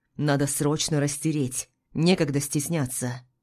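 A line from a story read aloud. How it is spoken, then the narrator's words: Barked. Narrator (Russian): Михаил рявкнул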